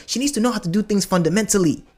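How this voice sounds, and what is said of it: Switches into a different accent. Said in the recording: “that's when the accent comes in”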